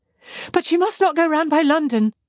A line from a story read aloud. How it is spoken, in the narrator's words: cried Marianne in the same hurried manner